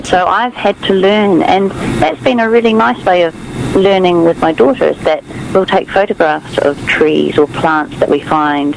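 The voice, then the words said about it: Slight New Zealand accent. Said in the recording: “obviously you can hear a bit of an accent. I'm from New Zealand”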